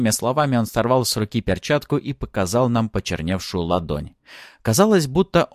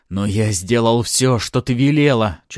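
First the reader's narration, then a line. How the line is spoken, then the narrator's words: Near-shrieking. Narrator (Russian): чуть ли не визжала Риста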